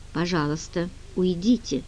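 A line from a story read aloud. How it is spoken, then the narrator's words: Even, level voice. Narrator (Russian): сказала Генри ровным голосом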